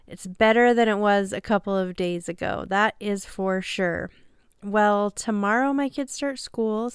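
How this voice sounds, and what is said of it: Nasal voice from a cold. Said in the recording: “I sound a little different, I've got a little cold ... I sound a little nasally,”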